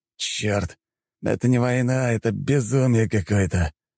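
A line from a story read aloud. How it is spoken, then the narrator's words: Hissed. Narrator (Russian): прошипел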